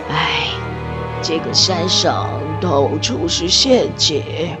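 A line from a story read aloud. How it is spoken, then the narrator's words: Sighing. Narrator (Chinese): 刘大头叹了一口气说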